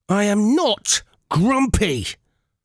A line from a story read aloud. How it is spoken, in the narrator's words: Aurora bellowed